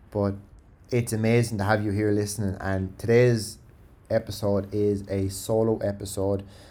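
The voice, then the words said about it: Speaks with a strong accent. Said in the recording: “I can't believe people can actually understand me, because for years and years, especially being overseas, I struggled with my accent so bad.”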